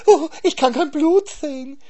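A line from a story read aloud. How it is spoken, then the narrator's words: Hare whining. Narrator (German): jammerte der Hase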